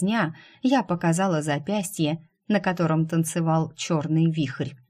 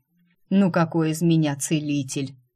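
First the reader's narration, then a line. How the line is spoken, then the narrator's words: Sighing. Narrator (Russian): Вздохнул темный, уже светлый маг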